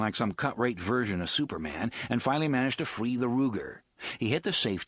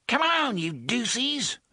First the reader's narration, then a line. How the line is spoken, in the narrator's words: a relatively young man snarled